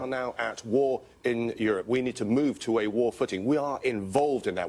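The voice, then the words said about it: British accent. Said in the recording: “in that accent from Britain”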